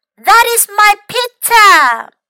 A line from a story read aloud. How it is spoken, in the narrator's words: A girl yelled